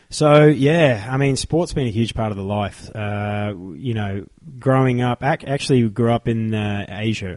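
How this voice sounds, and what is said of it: Australian accent. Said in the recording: “for those of you that can't identify ... accent, he's from Australia”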